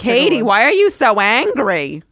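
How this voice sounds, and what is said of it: Put-on Jewish mother accent. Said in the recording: “A Southern accent's one of the few accents I can kind of do... Oh, and Jewish mother”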